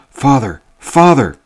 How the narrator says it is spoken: cried I

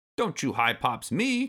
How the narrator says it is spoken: Cranky snapped

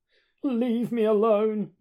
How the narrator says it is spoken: he quavers

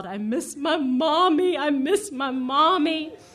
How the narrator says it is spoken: he howled

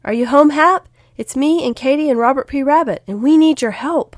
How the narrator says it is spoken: Will called out

